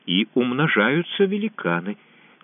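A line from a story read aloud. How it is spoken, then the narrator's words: Quiet speech. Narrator (Russian): тихо проговорил Катай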